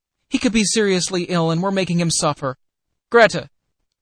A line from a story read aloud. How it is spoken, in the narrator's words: cried